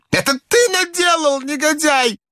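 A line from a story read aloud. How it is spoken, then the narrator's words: Shouting. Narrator (Russian): закричал он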